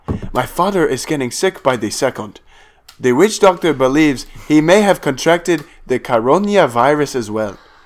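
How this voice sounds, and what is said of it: Put-on Nigerian accent. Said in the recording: “That was a good accent, actually.”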